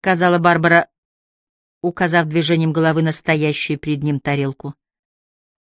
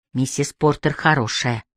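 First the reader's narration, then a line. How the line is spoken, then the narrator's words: Low voice. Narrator (Russian): вполголоса сказала она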